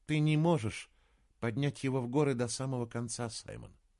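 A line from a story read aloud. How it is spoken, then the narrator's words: Soft. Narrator (Russian): мягко сказала она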